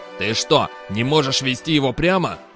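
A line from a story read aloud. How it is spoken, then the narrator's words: Growling. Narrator (Russian): прорычал арканцлер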